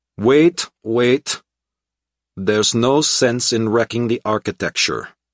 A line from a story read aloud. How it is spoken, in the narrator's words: The intercom crackled and crinkled with static noise, and a man's voice with a faint accent said